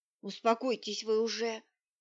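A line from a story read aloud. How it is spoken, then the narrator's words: Angry grumble. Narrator (Russian): сердито буркнул в ответ Щербаков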